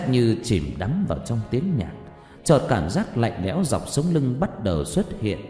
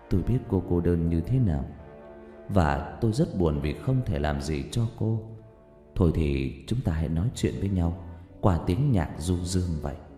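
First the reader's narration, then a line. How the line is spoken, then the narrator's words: Whisper. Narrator (Vietnamese): Rách thì thầm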